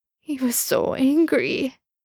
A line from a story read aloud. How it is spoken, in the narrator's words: Sam sobbed